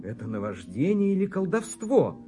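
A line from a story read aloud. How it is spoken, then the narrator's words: Prisoner's exclamation. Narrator (Russian): воскликнул пленник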